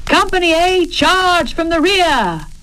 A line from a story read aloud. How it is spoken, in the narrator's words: he shouted